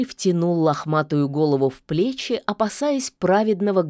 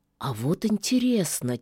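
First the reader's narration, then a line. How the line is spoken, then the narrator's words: Quiet. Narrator (Russian): тихо произнес леший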